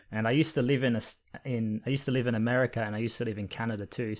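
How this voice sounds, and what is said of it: Australian accent with American inflections. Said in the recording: “the Australian accent has a little bit of American in it ... my accent is a bit confused ... a bit less Australian now than it once was ... small inflections and small sounds”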